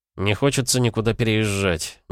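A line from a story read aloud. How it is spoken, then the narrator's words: Displeased grumble. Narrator (Russian): недовольно буркнул Нестор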